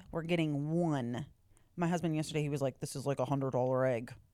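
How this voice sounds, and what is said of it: Slightly off, allergy-affected voice. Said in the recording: “I sound a little weird, it's because I have I'm having a slight allergy issue”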